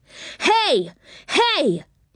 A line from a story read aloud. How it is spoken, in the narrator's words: he cried angrily